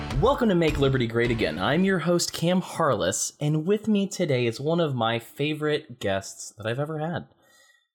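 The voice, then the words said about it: Chipper customer service voice. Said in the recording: “customer service voice that I start this show with. It was all of Chick fil A's fault”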